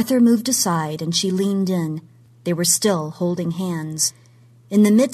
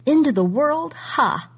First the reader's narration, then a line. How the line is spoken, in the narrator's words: she said, and she laughed